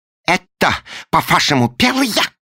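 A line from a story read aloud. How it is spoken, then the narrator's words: Shouting. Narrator (Russian): закричал он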